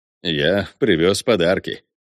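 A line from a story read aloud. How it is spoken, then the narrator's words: Tender mumble. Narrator (Russian): умиленно пробормотал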